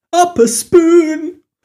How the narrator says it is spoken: finished the line, her voice strangled, expression twisting

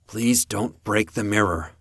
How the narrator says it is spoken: I told him, my voice straining slightly due to the lack of something within myself

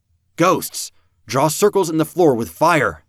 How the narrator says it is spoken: I shouted

